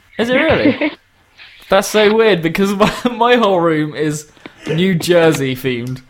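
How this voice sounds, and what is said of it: British accent. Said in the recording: “your accent... the British accent”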